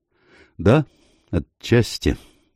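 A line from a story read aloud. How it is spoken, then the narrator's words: Slow. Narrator (Russian): медленно произнес Мередит Блейк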